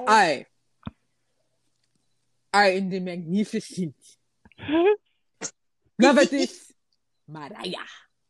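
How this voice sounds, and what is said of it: Put-on Dracula-like foreign accent. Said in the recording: “You sound like Dracula. ... What accent is that? ... Transylvanian. It sounds Transylvanian. ... I was trying to be like African, like the ... Afro-pop. ... It sounded like that Wakandan accent.”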